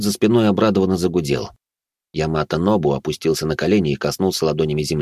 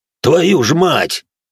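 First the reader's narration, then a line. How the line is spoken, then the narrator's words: Joyful shout. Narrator (Russian): обрадованно заорал генерал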